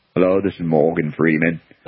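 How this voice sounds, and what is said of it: Morgan Freeman impression. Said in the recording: “the best U.S. accent of all time, they picked Morgan Freeman”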